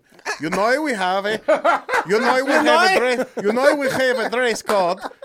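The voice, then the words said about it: Attempted Dutch accent. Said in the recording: “I can't do a Dutch accent.”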